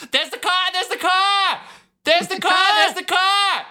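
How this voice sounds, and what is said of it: Shouting in a regional accent. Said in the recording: “the way she does it in the accent where she's shouting on the radio”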